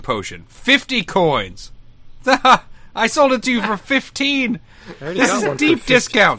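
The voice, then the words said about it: Fake shopkeeper character voice. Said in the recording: “That's my real voice. Every other voice you heard was a fake voice.”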